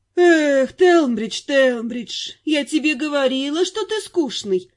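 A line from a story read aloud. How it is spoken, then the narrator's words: Sighing, teasing. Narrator (Russian): вздохнула наемница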